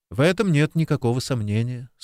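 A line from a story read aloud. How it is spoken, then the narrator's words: Calm. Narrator (Russian): спокойно ответил Алекс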